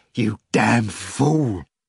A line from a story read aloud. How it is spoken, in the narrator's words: Nikanor Ivanovich rasped